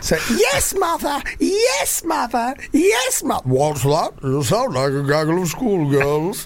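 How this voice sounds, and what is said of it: Imitates a sitcom character's voice. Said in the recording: “your Vicious impression”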